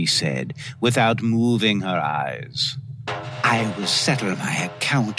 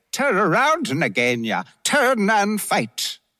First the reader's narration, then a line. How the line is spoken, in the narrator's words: Rikki-Tikki came up and cried